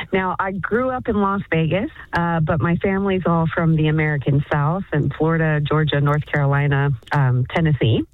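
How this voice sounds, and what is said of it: American accent. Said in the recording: “People can hear this this accent.”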